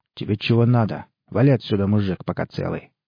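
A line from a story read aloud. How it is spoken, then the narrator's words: Rough snapping thug. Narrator (Russian): огрызнулся бандит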